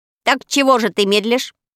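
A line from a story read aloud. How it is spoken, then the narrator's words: Angry crow's cry. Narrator (Russian): сердито крикнула ворона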